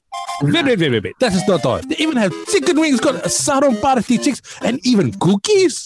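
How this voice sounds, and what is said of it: Put-on Russian-Italian accent. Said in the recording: “Why is there a Russian accent? ... our voice of our artists were kind of Russian Italian”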